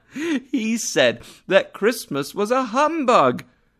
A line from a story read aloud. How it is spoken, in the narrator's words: cried Scrooge's nephew